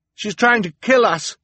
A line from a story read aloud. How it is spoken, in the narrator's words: Klaus shouted to the audience